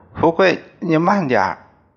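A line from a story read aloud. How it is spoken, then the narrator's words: Displeased shout. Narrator (Chinese): 他一看到我割得快，便不高兴，朝我叫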